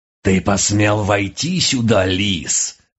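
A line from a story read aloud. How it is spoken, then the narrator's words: Menacing panther snarl. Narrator (Russian): грозно скалила пасть черная пантера из близких к природе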